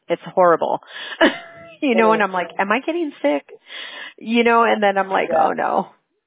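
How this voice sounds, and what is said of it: Strained, fading voice. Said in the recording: “I can't believe I'm already losing my voice”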